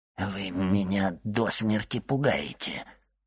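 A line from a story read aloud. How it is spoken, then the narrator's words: Mutter. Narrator (Russian): пробормотал Кадрус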